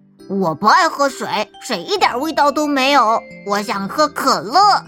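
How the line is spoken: Mumbling. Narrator (Chinese): 橘子嘟囔着

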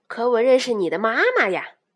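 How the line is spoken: Smiling man. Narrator (Chinese): 那个眼镜叔叔微笑着说

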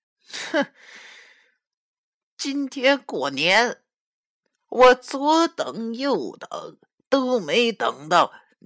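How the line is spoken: Torn between laughing and crying. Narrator (Chinese): 那黄三太奶好像有些哭笑不得的说

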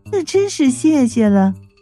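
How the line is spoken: Amused muffled laugh. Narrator (Chinese): 三娘显然觉得我这句话十分奇怪呀，掩嘴就笑道

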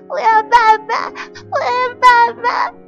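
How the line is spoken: Loud crying. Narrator (Chinese): 我的哭声太大

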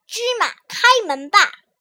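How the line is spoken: Loud shout. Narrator (Chinese): 卡西姆大声喊道

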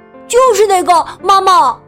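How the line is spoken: Excited shout. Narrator (Chinese): 东华突然兴奋的大叫

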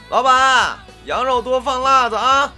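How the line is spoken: Loud bellow. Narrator (Chinese): 大宽又一嗓子喊出来

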